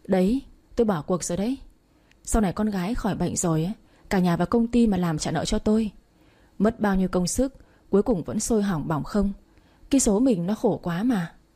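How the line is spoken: Sighing. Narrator (Vietnamese): Choi thở dài nói

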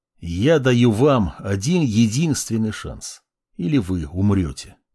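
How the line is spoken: Calm, quiet, serious. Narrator (Russian): Проговорил я спокойно, тихо, без злобы и без всяких шуток

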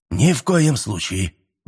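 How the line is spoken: Offended exclamation. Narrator (Russian): воскликнул обиженно Лука

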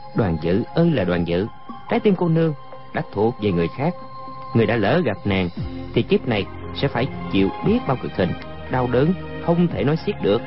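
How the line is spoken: Muttering. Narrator (Vietnamese): Chàng lẩm bẩm

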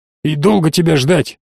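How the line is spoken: Grumbling. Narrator (Russian): пробурчал Сайтасан

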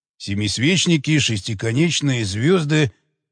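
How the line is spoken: Muttering. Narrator (Russian): бормотал он

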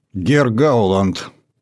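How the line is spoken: Stern. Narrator (Russian): строго сказала Урсула фон дер Ляйен

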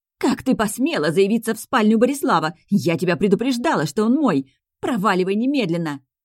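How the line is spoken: Shrieking. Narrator (Russian): визжала Милена

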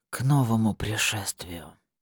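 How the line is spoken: Whisper. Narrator (Russian): прошептал Богомол

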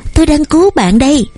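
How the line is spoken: Tense shout. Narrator (Vietnamese): Tiểu Mễ căng thẳng hét lên

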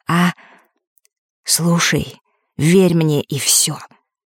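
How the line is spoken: Barely audible. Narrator (Russian): еле слышно произнес Эрик

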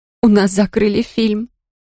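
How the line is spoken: Sobbing. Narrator (Russian): приговорила я и зарыдала

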